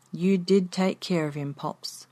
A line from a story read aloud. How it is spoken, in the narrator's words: she said softly